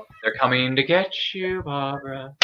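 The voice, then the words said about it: Imitates a movie character's voice. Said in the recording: “I do a great impression”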